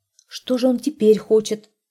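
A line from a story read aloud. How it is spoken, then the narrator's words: Plain. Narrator (Russian): спросила жена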